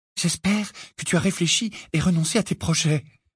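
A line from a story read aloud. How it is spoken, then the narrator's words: Murmured. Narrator (French): murmura Hermione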